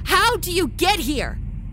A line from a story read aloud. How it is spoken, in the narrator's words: Paula shouted the questions